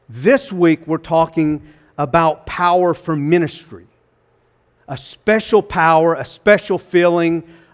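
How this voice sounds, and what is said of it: North Carolina Southern US accent. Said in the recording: “excuse my North Carolina accent.”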